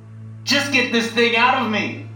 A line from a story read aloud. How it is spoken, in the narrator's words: yelled